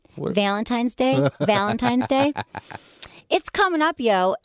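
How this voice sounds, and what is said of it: Michigan accent. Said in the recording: “this is when Michigan accent comes out.”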